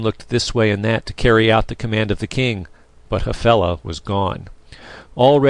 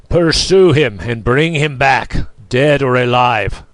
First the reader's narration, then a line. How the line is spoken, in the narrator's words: thundered the king